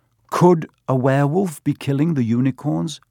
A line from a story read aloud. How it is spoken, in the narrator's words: Harry asked